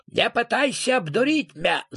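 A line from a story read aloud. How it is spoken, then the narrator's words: Furious shout. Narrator (Russian): закричал Роб, подпрыгивая на месте от ярости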